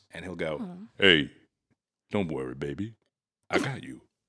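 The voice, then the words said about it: Deep macho boyfriend voice. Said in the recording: “That was an incredible impression of a jacked tall king.”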